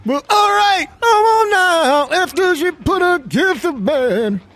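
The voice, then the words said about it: Imitates another person's voice. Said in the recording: “your Springsteen impersonation”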